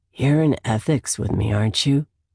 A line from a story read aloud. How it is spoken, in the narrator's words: he asks in that deep, sexy voice of his